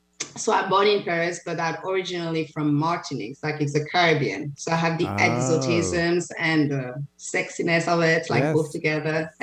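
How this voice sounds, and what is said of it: French accent. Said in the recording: “you just said you're French ... as you can see from my accent, so I'm from Paris”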